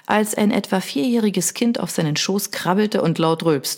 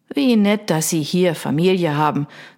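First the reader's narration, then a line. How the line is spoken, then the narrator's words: Plain. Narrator (German): sagte Mr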